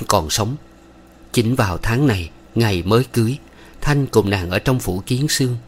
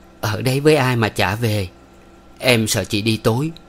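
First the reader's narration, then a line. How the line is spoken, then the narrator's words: Smiling. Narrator (Vietnamese): Phương mỉm cười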